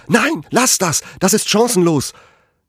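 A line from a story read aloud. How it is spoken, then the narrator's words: Shouted. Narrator (German): Ich schrie noch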